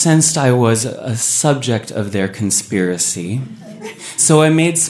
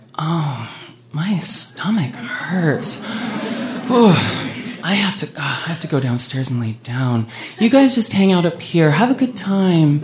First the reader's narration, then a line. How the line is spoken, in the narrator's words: Heather groaned and was like